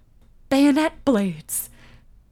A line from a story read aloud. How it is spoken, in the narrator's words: I gasped